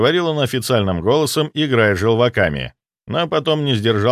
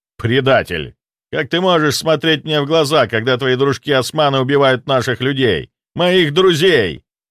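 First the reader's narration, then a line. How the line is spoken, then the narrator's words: Roaring. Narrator (Russian): взревел он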